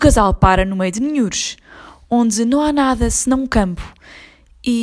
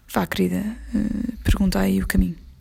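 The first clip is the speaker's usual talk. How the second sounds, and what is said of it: Whispered line. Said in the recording (Portuguese): “Ele abre a janela do carro e sussurra.”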